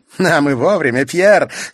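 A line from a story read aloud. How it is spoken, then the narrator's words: Woman laughing. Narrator (Russian): смеясь сказала женщина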